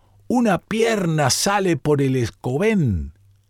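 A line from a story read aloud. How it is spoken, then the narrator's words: Sudden exclamation. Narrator (Spanish): De pronto, un pescador exclamó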